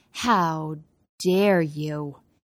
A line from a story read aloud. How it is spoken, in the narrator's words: he hissed